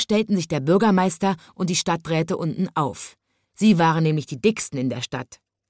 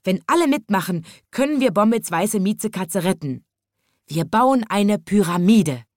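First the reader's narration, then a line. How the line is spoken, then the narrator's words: Finally calling out. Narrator (German): rief endlich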